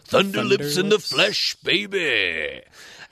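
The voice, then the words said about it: Imitates another person's voice. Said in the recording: “your Hulk Hogan impression”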